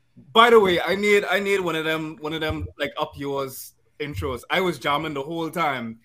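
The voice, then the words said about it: Toned-down Bahamian accent. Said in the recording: “This is a very Bahamian night ... I'm going to try to keep the accent as gentrified as possible so that y'all can understand me at least”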